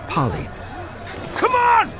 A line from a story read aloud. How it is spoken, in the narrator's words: Sir Robert was shouting at the delaying few